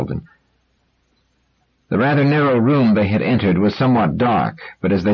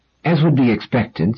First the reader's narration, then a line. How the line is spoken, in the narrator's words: said Doris